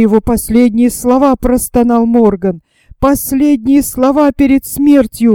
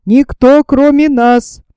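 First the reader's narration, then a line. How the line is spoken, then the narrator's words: Composed shout. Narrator (Russian): взял себя в руки и крикнул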